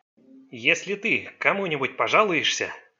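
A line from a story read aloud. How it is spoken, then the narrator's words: Sinister whisper in dialect. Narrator (Russian): зловещим шепотом произнес он, переходя на пекинский диалект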